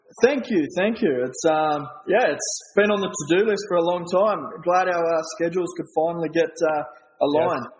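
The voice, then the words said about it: Australian accent. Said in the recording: “he has an accent, and it's slightly different than ours... I love the accent... comes from Australia”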